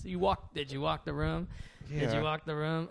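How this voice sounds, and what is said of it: Imitates another person's voice. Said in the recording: “I was trying to do a Norm Macdonald impression.”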